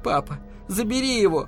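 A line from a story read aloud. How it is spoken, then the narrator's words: Pleading. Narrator (Russian): взмолилась Элли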